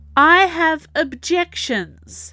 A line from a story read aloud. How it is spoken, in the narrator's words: Cousin Metis announced loudly